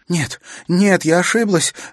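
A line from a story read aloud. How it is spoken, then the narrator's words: Sudden shout. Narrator (Russian): внезапно закричала рабыня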